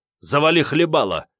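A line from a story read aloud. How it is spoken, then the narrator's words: Sharp, curt. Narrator (Russian): резко бросил Старлей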